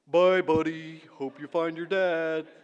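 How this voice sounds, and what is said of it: Playful narwhal character voice. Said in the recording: “in my best narwhal voice.”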